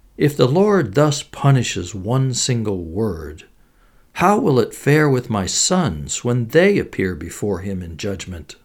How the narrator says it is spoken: the woman began to weep and cried

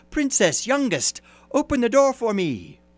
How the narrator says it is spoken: a voice called out

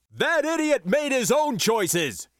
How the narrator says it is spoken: he shouted at last

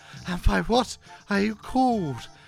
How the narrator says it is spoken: gasped the complying wench

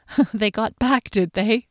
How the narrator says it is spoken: she chuckled quietly

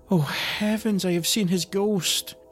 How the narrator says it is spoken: cried

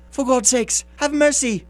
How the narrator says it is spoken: he shrieked

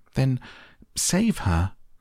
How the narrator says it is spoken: cried Mrs

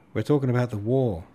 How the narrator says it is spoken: the count shouted back down the table

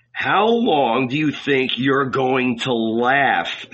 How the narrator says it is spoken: someone growled

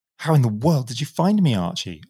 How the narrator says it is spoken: cried in a transport of joy

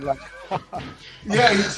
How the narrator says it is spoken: he chuckled like Russell Wilson

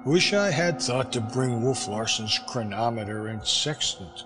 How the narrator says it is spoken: I said, still gloomily

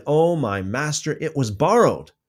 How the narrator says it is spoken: he cried out and said

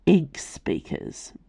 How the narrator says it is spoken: Reynard muttered behind them

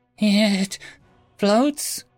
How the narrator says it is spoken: whimpered Silvervy

